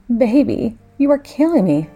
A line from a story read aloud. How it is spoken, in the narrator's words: You groaned and said